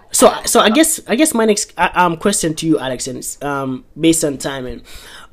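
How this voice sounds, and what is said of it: Speaks with a noticeable accent. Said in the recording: “it's the accent, it's the accent, man”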